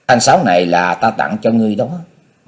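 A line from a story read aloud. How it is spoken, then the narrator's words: Smiling. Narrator (Vietnamese): Chu Di mỉm cười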